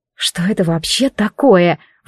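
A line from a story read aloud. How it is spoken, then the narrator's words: Breathless exhale. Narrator (Russian): выдохнула я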